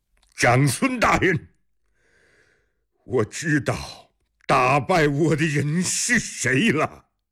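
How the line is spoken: Calling out. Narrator (Chinese): 阿史那思摩从后面喊了一声

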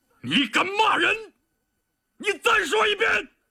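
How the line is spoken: Enraged roaring. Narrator (Chinese): 李云龙也被激怒了，他咆哮着

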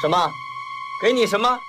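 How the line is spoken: Shouting. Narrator (Chinese): 丧妻又叫了起来

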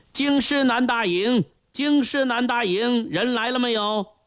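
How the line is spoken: Official shouting loudly. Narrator (Chinese): 一位吏目高声嚷道

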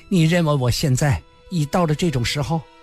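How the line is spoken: Trembling voice. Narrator (Chinese): 他声音颤抖，因为他全身都在发抖，也不知是气氛是冷还是恐惧

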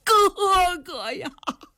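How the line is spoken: Loud grieving wail. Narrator (Chinese): 赤发灵官单雄信不由得心中难受，放声大哭啊

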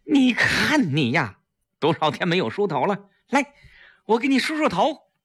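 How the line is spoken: Sad, loud. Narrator (Chinese): 季嫣然难过的大声说

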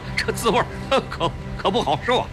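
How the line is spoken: Forced laugh. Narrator (Chinese): 胡庆阳勉强笑笑

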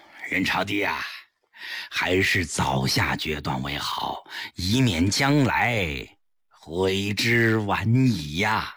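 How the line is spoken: Smiling. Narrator (Chinese): 颔首一笑

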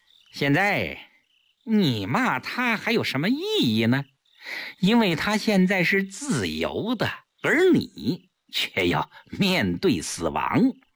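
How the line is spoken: Smug laugh. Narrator (Chinese): 顾青自负地笑笑，对萧啸天说

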